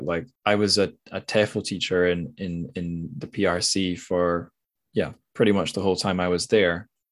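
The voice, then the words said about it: Mild Scottish accent. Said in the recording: “accent's very easy to understand ... Scotland or the UK that I'm from ... I'm from the suburbs, so I don't have a strong accent”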